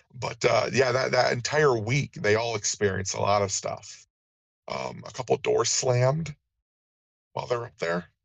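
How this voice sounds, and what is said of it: Strained, worn-out voice. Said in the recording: “my voice is getting a little bit shot”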